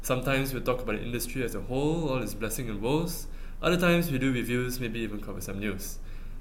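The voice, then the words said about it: Extremely monotone voice. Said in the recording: “my extremely monotone voice”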